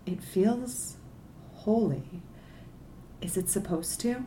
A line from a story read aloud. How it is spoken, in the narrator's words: Softly, said